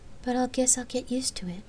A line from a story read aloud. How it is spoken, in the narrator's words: Gabrielle had admitted quietly